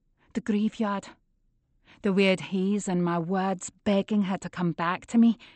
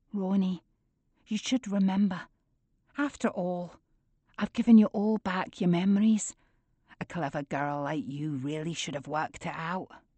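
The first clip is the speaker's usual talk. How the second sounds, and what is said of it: Soft Scottish accent. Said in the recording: “The gatekeeper's harsh tones have disappeared, replaced by my mother's soft Scottish accent.”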